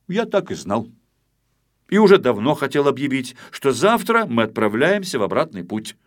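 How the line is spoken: Said loudly. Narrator (Russian): громко сказал

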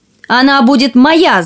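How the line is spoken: Shouted. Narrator (Russian): закричал один

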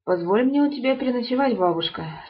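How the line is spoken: Plain. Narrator (Russian): сказал солдат

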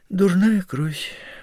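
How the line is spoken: Sighed. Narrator (Russian): вздохнула Софья Дмитриевна

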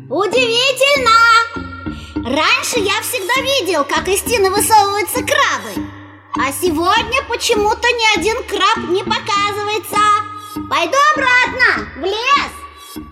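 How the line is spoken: Loud calling out. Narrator (Russian): громко выкрикивать

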